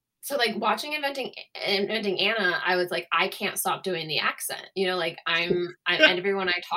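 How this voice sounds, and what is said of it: Usual voice. Nothing is said of it.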